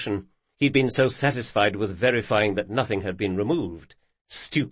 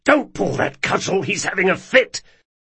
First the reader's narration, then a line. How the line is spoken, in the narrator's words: said Locke, spraying flecks of spittle and waving his head about furiously